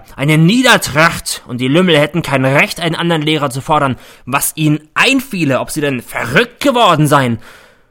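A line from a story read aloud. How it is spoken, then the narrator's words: Shouting. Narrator (German): brüllt er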